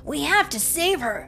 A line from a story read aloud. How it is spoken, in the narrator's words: exclaimed Luke